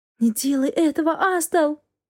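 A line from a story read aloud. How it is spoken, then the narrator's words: Whispered. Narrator (Russian): прошептала я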